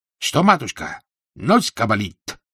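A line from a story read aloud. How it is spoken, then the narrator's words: Shouted, comically mangled words. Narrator (Russian): закричал он, смешно коверкая слова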